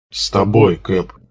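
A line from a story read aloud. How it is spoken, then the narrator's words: Two voices booming together. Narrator (Russian): одновременно прогудели снайпер и пулеметчик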